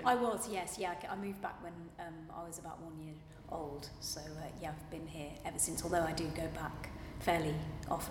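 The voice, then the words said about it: Accent not from Seattle. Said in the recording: “The accent clearly isn't that of a Seattle”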